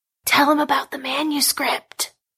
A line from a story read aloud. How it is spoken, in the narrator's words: hissed Aaron into AF's left ear